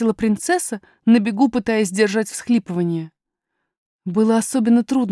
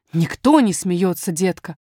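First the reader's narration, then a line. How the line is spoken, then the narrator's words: Dismissive, almost angry. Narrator (Russian): отмахнулась няня почти сердито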